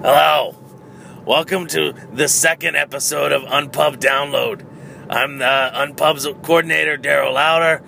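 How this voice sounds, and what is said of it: Hoarse, strained voice. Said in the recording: “sorry for my voice ... I'm with you there”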